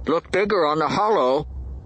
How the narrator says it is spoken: Mag said, his voice muffled by his hand

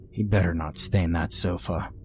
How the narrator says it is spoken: Kenny grumbled to me

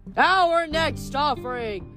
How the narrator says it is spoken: the ghoul shouted, his voice buzzing from the arrow in his throat

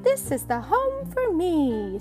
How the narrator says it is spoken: sang Bird happily

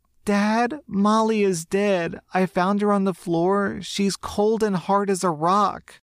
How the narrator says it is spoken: sobbed

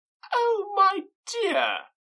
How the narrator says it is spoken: cried his wife

